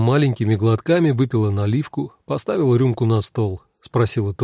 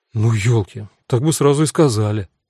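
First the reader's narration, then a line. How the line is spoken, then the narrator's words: Sighing. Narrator (Russian): вздохнула Эва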